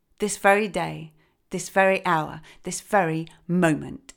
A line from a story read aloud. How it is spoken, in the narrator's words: answered sternly